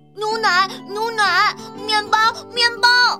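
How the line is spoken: Shouting. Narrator (Chinese): 笨狼……他真的大声喊

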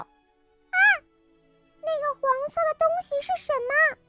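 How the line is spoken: Sudden loud shout. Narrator (Chinese): 爱哭的公主突然大叫

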